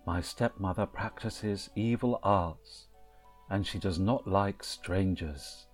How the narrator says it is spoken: sighed and said

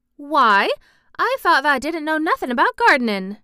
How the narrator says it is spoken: he exclaimed

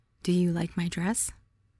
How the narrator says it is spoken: I whispered in Lammy's ear

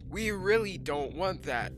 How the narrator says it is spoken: Hector called out

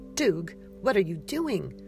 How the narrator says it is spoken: Persephone snapped

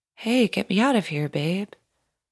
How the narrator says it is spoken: he finally said, very calmly, as if he didn't doubt me

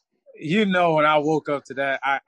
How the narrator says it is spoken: I yelled

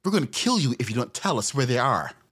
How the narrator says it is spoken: Tanya snarled

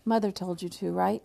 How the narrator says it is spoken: he asked

